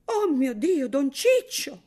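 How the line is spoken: Woman exclaiming. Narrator (Italian): esclamò la donna

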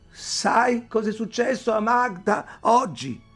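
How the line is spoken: Shouting. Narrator (Italian): Ayla gridò

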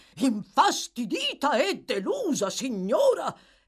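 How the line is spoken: Exclaimed. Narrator (Italian): esclamò il signor Bumble

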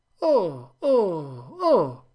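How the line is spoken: Exclamation. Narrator (Italian): esclamò Venerdì

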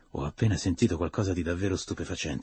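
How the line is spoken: Whispered. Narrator (Italian): sussurrò

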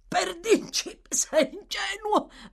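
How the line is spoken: Defensive stammer. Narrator (Italian): balbettò poi, una volta ripresosi, come per giustificare il proprio comportamento scortese

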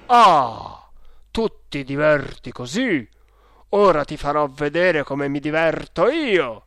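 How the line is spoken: Father's menacing exclamation. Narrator (Italian): il babbo, esclamando con voce minacciosa

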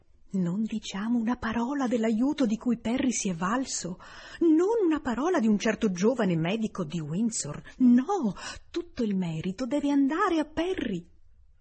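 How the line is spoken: Whisper. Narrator (Italian): riprese a bisbigliare

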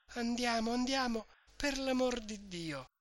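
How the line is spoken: Faint pleading voice. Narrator (Italian): Lucia chiamava Renzo con voce fioca e diceva, pregando

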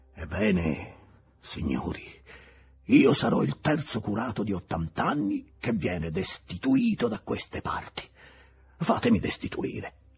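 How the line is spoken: Old man's trembling exclamation. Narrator (Italian): aveva esclamato con voce tremante il vecchio curato

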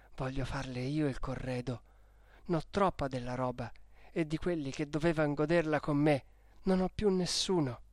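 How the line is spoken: Added under breath. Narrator (Italian): soggiunse poi sottovoce

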